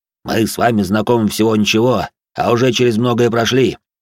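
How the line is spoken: Deep bass voice. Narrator (Russian): пробасил он

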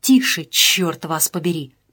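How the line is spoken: Urgent whisper. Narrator (Russian): прошептал Шардаков

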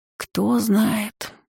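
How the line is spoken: Sighing. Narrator (Russian): вздохнула Лаша

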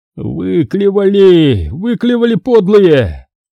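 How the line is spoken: Groaning. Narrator (Russian): застонал Фома

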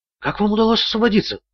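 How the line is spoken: Whisper. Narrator (Russian): прошептала она

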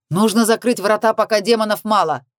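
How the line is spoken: Shout. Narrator (Russian): прокричал я

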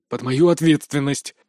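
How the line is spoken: Gruff mutter. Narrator (Russian): буркнул мастер Рао

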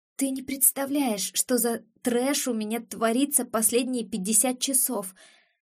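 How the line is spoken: Hoarse female reply. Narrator (Russian): хрипло откликается сестра

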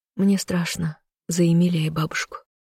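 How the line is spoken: Whispered. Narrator (Russian): прошептала

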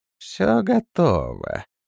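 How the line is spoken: Hoarse rustling voice. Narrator (Russian): ответила она хриплым, как шелест сухих веток, голосом

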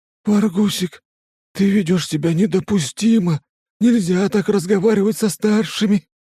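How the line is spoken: Confused whisper. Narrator (Russian): растерянно шепчет Шухер

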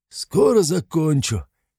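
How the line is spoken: Hoarse reply. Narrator (Russian): хрипло ответил Кривой

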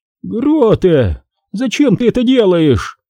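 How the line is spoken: Old woman exclaiming. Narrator (Russian): воскликнула бабушка

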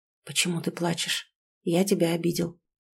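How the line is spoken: Whisper close to ear. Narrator (Russian): шепнул рядом с моим ухом

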